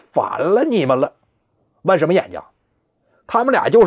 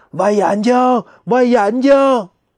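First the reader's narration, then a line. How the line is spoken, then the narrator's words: Crowd of ghosts shouting. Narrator (Chinese): 森罗殿外边那一两万只鬼也跟着喊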